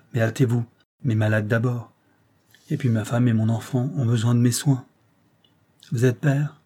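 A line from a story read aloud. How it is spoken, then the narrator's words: Curt voice. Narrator (French): dit-il d'une voix brève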